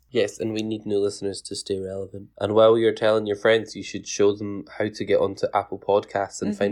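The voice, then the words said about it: Scottish accent. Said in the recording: “has a fantastic accent... Everyone loves an accent, especially a Scottish one... Everybody hates my accent because they don't know what I'm saying.”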